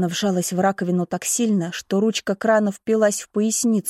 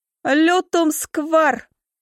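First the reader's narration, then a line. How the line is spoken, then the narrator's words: Shouted. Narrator (Russian): выкрикнула Эмилия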